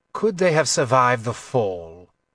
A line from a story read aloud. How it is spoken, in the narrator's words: Nefdada asked in his icy voice